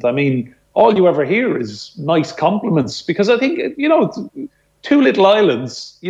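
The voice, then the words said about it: Irish accent. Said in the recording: “tone down my accent ... tone down your Irish accent”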